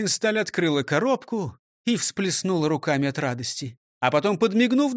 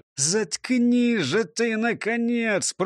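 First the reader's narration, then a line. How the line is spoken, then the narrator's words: Boss hissing through gritted teeth. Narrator (Russian): прошипел, скрипя зубами, шеф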